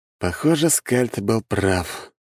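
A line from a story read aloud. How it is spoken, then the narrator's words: Sighing. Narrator (Russian): вздохнул я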